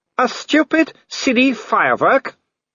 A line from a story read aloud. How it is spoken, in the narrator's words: shouted Wolfgang